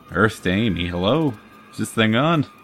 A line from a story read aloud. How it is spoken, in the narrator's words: He chuckled, but didn't mean it